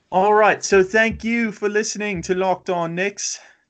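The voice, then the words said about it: Put-on British accent. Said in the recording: “Should I outro in British ... British ... I'm getting quite tired of doing this accent.”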